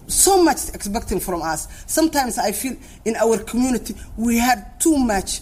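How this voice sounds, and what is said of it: Foreign accent, Somali-born speaker. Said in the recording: “You're going to hear an accent, a Minnesota teacher, on why these young Somalis are out of control.”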